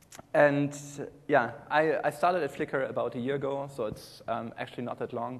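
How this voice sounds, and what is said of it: German accent. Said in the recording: “I originally come from Germany. I guess you can hear this on my accent. It's hard to get rid of.”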